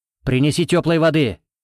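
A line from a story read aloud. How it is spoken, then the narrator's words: Shouted. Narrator (Russian): крикнул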